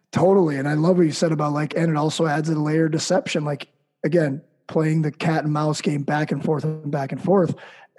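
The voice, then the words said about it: Raspy voice. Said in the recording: “can't do it right now with my raspy voice”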